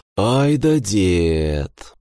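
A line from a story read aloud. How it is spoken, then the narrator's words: Drawn-out amused drawl. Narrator (Russian): протянул я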